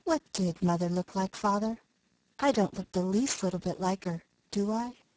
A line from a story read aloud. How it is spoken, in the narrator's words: the Story Girl said, still very softly